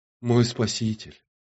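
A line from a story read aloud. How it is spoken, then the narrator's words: Soft voice. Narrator (Russian): мягко проронила медуза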